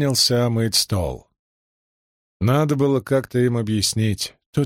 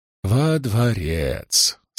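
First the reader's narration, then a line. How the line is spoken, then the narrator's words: Gentle, slightly mocking. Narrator (Russian): сказал он ласково и чуть насмешливо, как всегда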